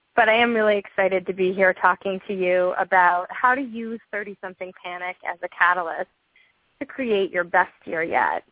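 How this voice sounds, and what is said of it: Voice sounding a little funny, unwell. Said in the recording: “my voice sounds a little funny today. I, like many people, have succumbed to some winter germs ... the cough monster”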